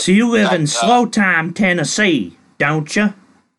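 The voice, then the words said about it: Put-on Southern accent. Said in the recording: “I did my little southern accent there in slow time Tennessee.”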